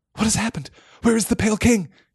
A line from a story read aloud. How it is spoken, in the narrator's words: he asked wildly